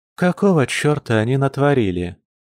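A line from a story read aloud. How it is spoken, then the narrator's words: Weary question. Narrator (Russian): устало спросила она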